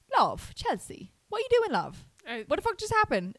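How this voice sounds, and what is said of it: Put-on British accent, possibly poor. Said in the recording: “this is going to be my British accent, everyone. It might not be good.”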